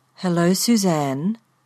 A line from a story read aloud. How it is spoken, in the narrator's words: the car said in a rich brown voice